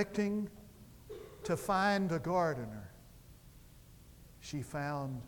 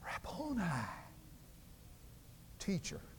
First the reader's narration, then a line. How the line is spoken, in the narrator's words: she turned and whispered